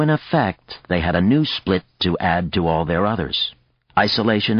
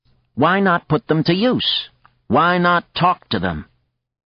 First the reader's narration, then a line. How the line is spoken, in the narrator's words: said sharply